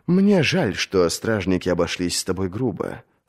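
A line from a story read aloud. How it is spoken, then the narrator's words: Soft, compassionate. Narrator (Russian): сказал он мягко и сострадательно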